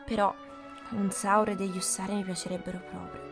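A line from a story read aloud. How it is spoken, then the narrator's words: Murmuring to himself. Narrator (Italian): Fritz mormorò tra sé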